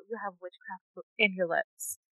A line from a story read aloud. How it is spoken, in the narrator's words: he said in a whisper